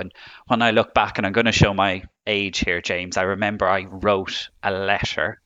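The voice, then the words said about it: Irish accent. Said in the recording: “as you can tell from my accent, I'm from Ireland”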